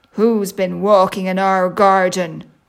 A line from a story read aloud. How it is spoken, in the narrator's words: growled Daddy Bear in a deep voice